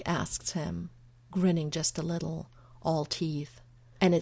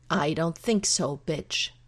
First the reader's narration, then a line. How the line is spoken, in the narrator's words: Marcus snarls